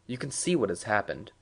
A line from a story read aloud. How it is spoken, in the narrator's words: Kramer said calmly